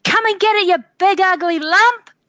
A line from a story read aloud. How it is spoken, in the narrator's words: I'm going to yell out